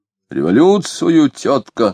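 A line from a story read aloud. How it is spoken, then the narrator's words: Calm and loud. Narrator (Russian): спокойно и громко ответили ей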